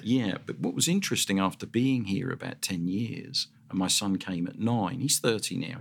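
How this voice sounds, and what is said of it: South London English accent. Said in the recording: “the little part of South London, Southwest London, that I came from is so very much like the Australian accent, because everybody thought here I was from Australia”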